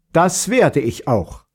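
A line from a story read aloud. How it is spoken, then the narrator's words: Woman calling after someone. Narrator (German): rief die Fürstin ihrem Gemahl hinterher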